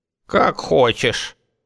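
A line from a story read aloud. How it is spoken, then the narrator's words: Grumbled. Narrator (Russian): буркнула Эштра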